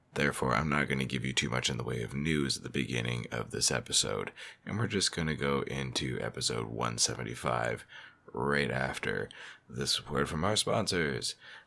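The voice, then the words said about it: Sick, hoarse, lost voice. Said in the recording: “sexy voice because I am very sick and under the weather, and I've lost my voice”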